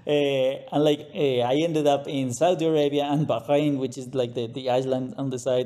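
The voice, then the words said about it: Colombian Latin American accent. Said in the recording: “I'm from Colombia, Latin America. That's why the accent”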